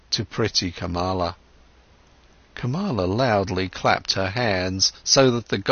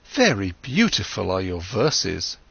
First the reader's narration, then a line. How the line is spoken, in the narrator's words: exclaimed Kamala